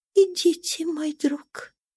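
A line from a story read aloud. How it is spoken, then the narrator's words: Frightened trembling whisper. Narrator (Russian): Дрожащая и испуганная, она прошептала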